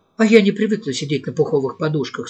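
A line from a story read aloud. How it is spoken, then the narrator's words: Plain, young woman. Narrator (Russian): сказала девушка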